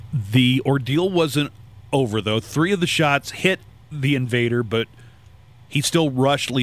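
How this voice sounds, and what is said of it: Usual voice. Nothing is said of it.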